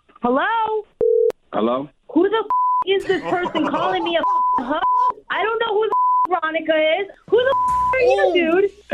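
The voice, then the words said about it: Angry screaming. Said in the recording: “why are you calling my phone screaming? ... you're screaming in my ear on my phone”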